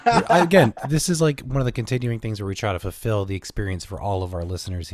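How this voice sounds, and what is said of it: Stuffy, congested nasal voice. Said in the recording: “I sound a little weird today because I'm really stuffy. I got like fed congestion all weekend ... my nose has not been happy ... if I sound a little different today, that's what it's from. I'm just super stuffy today”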